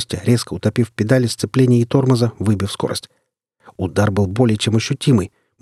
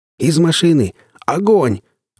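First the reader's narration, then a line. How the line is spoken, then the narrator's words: Adrenaline-fueled yell. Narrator (Russian): ощущая прилив адреналина, заорал я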